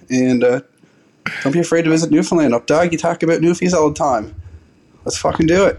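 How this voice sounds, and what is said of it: Newfoundland accent. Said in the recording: “He sounded like a Newfie”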